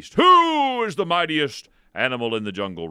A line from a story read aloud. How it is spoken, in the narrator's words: roared the lion